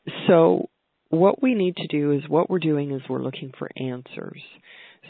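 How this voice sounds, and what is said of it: Voice slightly off from a cold. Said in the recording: “I've had a cold in our house here ... my voice is a little bit off today”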